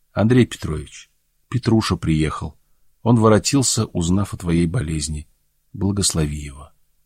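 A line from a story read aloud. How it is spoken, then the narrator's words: Mother speaking. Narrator (Russian): матушка говорит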